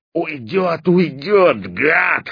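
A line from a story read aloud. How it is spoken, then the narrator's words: Hoarse wheezing. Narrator (Russian): хрипел Стопка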